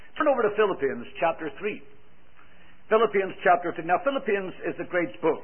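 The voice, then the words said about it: Irish accent. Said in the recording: “with my Irish accent”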